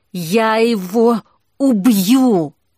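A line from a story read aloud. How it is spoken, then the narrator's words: Choked wheeze. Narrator (Russian): просипел огонь, будто не мог дышать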